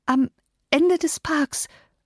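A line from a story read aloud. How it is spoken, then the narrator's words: Stammering. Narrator (German): stotterte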